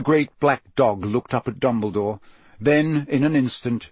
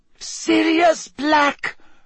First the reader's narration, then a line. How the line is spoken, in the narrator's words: she shrieked